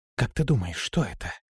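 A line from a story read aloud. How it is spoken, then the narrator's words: Whispered question. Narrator (Russian): шепотом спросила Лирея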